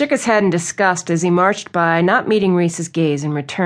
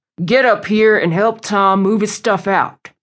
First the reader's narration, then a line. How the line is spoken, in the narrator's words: Blake boomed from the top of the stairs